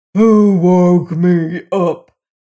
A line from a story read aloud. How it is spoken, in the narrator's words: he growled, trying to gain his feet